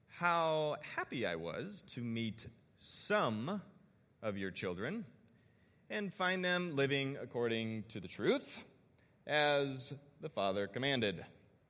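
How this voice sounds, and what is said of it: Stern fatherly dad voice. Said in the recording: “dad voice ... this is my voice when I give like to, to my kids ... Different vibe”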